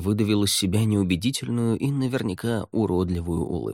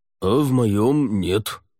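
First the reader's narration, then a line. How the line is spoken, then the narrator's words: Snort. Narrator (Russian): фыркнул Кхантаж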